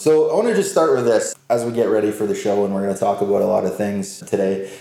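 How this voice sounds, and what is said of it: Canadian English accent. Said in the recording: “I love the accent, too. ... It's obvious that you're from Canada. 100% A. ... all the A's that I say”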